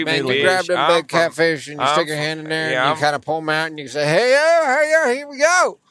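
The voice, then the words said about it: Good put-on Southern cowboy accent. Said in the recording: “That was a good accent. ... You got the southern.”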